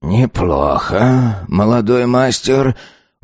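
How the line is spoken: Breathless, relieved old man. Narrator (Russian): выдохнул старик, чувствуя, как на его спине запоздало выступил холодный пот

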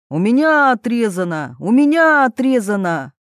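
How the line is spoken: Group shouting. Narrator (Russian): Они все закричали

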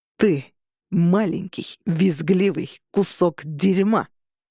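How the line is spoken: Growling. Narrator (Russian): зарычал Роган

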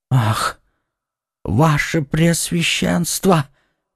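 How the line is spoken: Terrified whisper. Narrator (Russian): прошептал Бонасье в ужасе

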